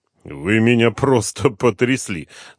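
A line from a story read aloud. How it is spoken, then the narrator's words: Laughing. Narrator (Russian): засмеялся Дронго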